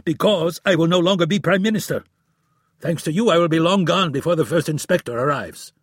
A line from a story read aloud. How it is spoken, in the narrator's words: yelled